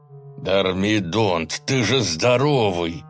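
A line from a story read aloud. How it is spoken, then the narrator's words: Hiss. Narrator (Russian): прошипел лекарь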